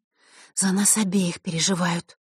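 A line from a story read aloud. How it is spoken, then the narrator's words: Quiet reply. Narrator (Russian): так же тихо ответила Василиса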